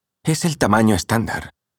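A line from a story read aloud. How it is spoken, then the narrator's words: Patient, insistent tone. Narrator (Spanish): insistió en tono paciente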